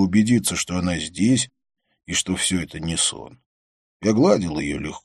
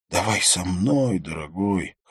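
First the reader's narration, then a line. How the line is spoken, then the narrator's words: Hoarse rasp in ear. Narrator (Russian): хрипела она мне в ухо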